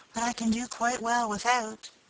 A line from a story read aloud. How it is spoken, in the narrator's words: she whispered in reply